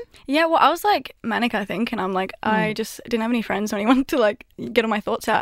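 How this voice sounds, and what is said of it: Australian accent. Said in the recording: “a Peach accent ... it's from Australia ... You're welcome, Australia, for the accent”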